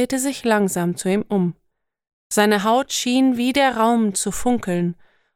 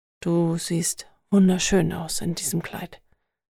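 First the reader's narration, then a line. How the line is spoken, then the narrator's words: Soft-spoken. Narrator (German): sagte er leise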